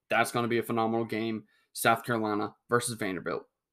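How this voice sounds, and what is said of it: Sarcastic delivery. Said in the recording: “that was totally sarcasm... that that was sarcasm.”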